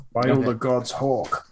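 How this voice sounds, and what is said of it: Imitates a character's voice. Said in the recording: “That's my impression of... It's very good.”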